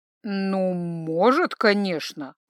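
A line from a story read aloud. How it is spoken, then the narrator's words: Drawled. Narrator (Russian): протянул первый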